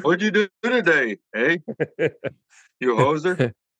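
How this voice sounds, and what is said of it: Put-on Canadian accent. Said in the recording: “I can do a Canadian. ... We can speak Canadian, eh?”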